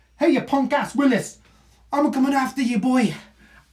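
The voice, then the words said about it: Put-on Scottish accent. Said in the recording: “That was my Scottish accent.”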